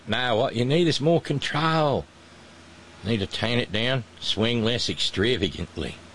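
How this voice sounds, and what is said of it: Attempted South African accent, sounds Australian. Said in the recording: “I'm working on my South African accent. It still sounds entirely Australian. ... We'll just pretend it's a South African accent.”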